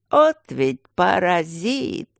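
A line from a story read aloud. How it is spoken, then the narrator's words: Admiring, disappointed groan. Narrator (Russian): восхищенно и разочарованно простонал Аристарх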